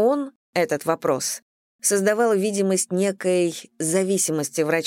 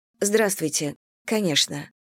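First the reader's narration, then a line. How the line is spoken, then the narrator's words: Calm woman's reply. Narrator (Russian): ответила спокойно женщина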